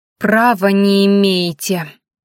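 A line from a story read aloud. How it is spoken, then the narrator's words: Strained, through clenched teeth. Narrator (Russian): с усилием процедила девушка, перебарывая оторопь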